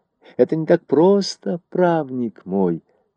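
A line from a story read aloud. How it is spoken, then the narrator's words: Gentle start. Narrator (Russian): начал он мягко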